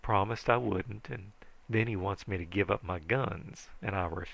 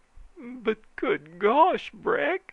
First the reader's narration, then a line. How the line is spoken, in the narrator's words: he pleaded